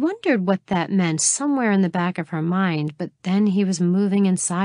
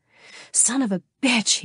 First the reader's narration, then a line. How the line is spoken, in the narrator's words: he panted, his body shaking too